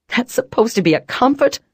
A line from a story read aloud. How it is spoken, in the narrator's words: I cried